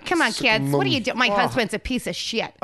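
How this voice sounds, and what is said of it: Exaggerated American soccer-mum accent. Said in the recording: “She picked the worst American accent to replicate ... Fargo ... The worst, the biggest cunt of an accent, like a little bitch of a mother, you know, like a soccer mum”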